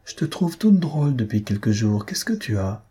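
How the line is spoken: Timid, worried murmur. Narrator (French): il murmura, le regard inquiet, la voix timide

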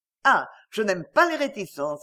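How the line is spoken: Brisk. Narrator (French): dit-elle vivement

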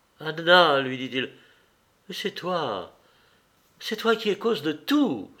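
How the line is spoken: Tearful, raging, despairing cry. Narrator (French): s'écria-t-elle, se levant des larmes de rage et de désespoir dans la voix

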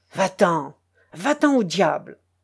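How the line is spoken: Growled. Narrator (French): gronda-t-il

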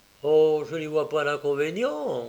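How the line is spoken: Plain. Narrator (French): répondit McMurdo

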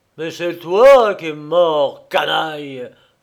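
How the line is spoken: Growled. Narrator (French): gronda Fernau

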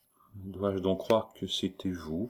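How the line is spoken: Spoken softly. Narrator (French): prononça tout bas Remy

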